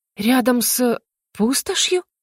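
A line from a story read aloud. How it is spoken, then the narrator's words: Uncertain. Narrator (Russian): неуверенно произнесла Нарая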